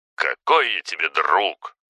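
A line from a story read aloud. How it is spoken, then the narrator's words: Snorting. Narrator (Russian): фыркнул на это Федор в своей неподражаемой манере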